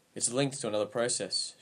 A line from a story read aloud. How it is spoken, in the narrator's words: she said